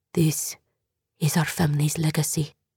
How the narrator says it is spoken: Her mother said in a low voice, the voice Jordan would later hear her using for spells and incantations

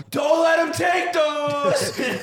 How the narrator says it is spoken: you have to yell

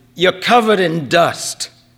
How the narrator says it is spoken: from the open window of his Toyota, Valenti shouted

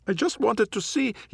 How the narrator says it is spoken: yelps

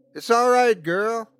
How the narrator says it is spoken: Eric shouted

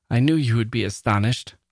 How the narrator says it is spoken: laughed Desiree

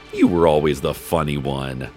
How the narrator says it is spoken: His father laughed and said

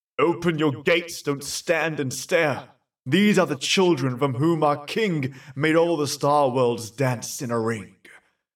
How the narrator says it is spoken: our fairy heralds cried aloud

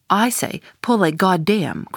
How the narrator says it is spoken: cried the Indian

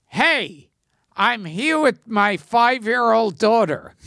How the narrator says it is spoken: yelled out

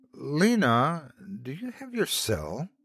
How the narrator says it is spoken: I asked hesitantly

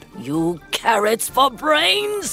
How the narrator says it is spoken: shouted

